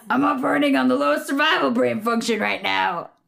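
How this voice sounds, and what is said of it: Imitates a character's voice. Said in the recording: “I love your Jake impression... That might have actually been your best Jake.”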